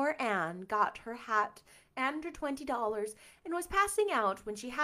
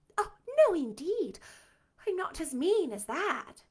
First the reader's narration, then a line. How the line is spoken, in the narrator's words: exclaimed Anne